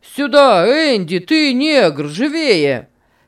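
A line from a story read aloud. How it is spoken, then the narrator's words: Shouting from under veranda. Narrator (Russian): кричал Сэм под верандой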